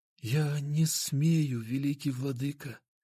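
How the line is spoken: Barely audible. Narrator (Russian): еле слышно ответил он

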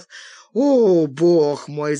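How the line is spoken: Woman moaning. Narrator (Russian): застонала она

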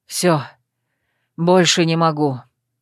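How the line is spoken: Tired werewolf. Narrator (Russian): устало выдал оборотник

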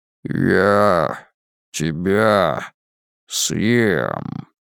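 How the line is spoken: Deep rumbling giant voice. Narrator (Russian): сообщил ему великан низким ракочущим голосом, словно валуны стукались друг о друга при землетрясении

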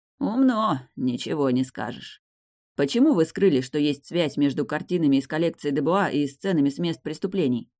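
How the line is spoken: Plain. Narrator (Russian): спросил Далей

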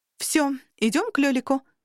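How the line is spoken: Exclamation. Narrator (Russian): воскликнула

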